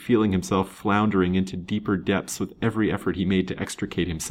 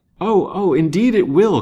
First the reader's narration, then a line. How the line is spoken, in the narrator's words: cried Lance eagerly, trying to condone his offensive words